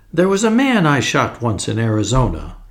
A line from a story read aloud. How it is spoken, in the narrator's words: he began cheerfully